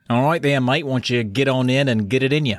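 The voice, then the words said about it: Put-on Australian accent. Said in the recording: “You bragging with your Australian accent.”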